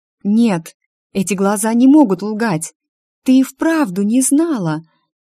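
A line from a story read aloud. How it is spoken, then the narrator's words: Sudden exclamation. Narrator (Russian): Вдруг Дашенька воскликнула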